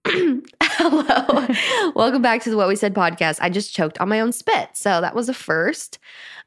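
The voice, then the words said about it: Sick, congested voice. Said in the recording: “I've been sick ... That's why my voice sounds like this ... You literally have a cold.”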